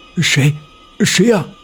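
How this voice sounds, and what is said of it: Trembling, quiet voice. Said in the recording (Chinese): “老宋的声音颤抖，小声的问道”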